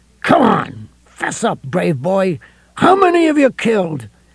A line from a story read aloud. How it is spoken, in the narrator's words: His voice rose to a shriek that was lost in the coming storm's first really authoritative clap of thunder